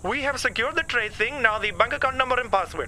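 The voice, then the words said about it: Unconvincing fake Chinese accent. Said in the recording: “did you really think I'd be fooled by that silly... accent... You don't even sound Chinese”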